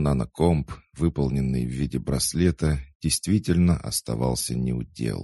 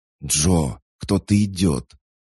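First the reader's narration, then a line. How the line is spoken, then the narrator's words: Strained whispered warning. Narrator (Russian): сдавленным шепотом предупредил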